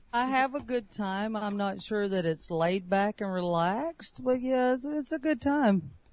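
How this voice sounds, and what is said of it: Relaxed Southern US accent. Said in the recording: “maybe it's your southern accent, but you sound very relaxed”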